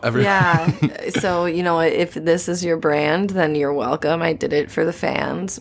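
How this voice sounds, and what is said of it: Scratchy, slightly hoarse voice. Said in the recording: “I had a cold. So if my voice sounds weird, it's because I've been coughing a lot ... My throat is a little tired. My voice is a little scratchy”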